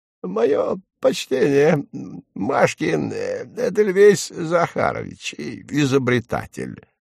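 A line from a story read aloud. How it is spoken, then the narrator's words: Quavering old voice. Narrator (Russian): старичок сказал дребезжащим голоском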